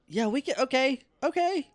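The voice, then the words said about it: Yelling, loud voice. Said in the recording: “I don't know why I'm yelling. You can probably hear me clearly.”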